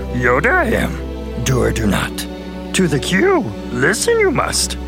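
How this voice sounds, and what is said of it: Yoda character voice impression. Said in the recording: “The Force is strong with this listener voice impersonation.”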